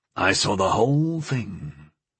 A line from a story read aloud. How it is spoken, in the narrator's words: he said softly